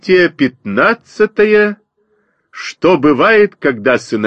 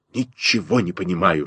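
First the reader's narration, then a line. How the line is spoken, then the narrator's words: Whisper. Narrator (Russian): шепнул мне Костя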